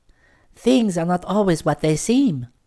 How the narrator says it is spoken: sighed the sugar lady

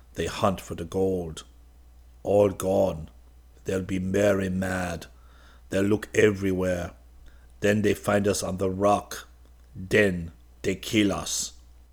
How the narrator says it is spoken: said the black in a dismal tone

